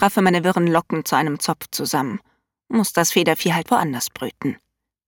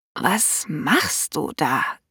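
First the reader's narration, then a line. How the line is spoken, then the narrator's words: Croaky, unfamiliar voice. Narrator (German): krächze ich und klinge wirklich nicht nach mir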